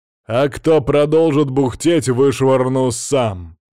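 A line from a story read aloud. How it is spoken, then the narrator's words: Thunderous voice. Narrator (Russian): добавил я громовым голосом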